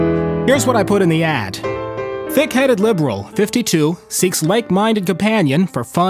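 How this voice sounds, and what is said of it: Usual voice. Nothing is said of it.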